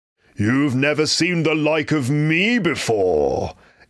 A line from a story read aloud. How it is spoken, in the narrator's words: exclaimed the spirit